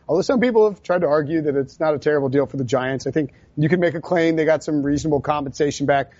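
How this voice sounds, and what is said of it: Usual voice. Nothing is said of it.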